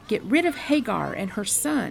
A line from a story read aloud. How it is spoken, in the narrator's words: cried